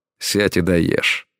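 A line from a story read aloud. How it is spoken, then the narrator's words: Stern, fatherly. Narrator (Russian): строго произнес Элай тоном папаши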